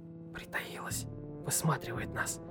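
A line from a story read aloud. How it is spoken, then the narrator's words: Whisper. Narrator (Russian): прошептал Вася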